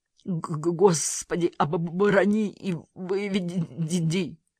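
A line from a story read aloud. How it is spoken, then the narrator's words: Trembling, moaning in pain. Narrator (Russian): Трясся доктор, стоная, как от боли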